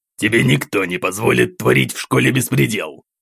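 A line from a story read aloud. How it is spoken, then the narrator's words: Growl. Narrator (Russian): Рыкнул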